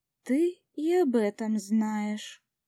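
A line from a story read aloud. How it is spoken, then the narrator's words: Drawling. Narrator (Russian): протянула я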